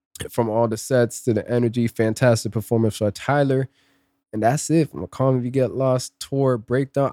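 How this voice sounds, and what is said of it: Hoarse, strained voice. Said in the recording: “I'm losing my voice. ... it's been a struggle just trying to speak. My throat's just getting dry.”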